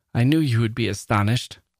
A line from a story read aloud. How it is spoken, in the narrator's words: laughed Desiree